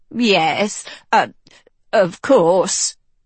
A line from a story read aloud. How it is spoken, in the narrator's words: the chaplain stammered